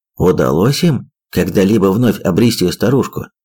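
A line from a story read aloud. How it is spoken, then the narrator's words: Plain. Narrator (Russian): спросил Гаррис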